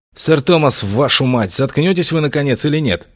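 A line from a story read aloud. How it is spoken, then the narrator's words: Sharp shout. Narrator (Russian): прикрикнул на него Августин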